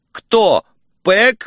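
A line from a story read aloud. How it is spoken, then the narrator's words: Howled. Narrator (Russian): взвыл я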